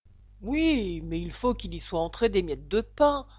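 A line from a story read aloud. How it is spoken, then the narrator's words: Grumbling. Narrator (French): grommela le chapelier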